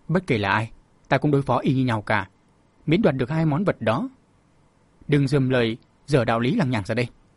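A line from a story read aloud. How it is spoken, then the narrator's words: Cold voice. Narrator (Vietnamese): Bạch Y Khách lúc này lạnh lùng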